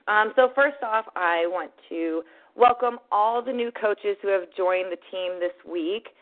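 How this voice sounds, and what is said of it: Hoarse, partly lost voice. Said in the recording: “my voice is a little bit gone”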